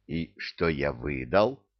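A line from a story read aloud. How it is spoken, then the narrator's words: Young man whispering. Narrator (Russian): прошептал юноша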